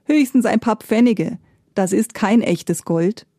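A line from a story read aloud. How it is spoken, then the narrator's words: Laughing goldsmith. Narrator (German): lachte der Goldschmied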